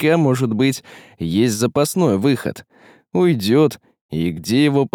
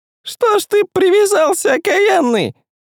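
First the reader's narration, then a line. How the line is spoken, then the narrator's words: Glum thin voice. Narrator (Russian): нерадостно спросил тонким голосом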